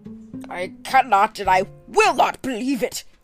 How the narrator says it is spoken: cried the banker with an ashen face

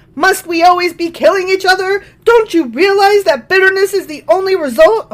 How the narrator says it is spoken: Abner shouted down to Joab

